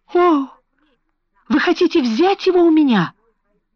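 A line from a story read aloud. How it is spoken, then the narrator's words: Tearful trembling exclamation. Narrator (Russian): воскликнула она со слезами на глазах и дрожащим голосом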